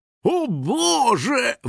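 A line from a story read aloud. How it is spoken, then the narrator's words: Exclamation. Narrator (Russian): воскликнул Хрюкфин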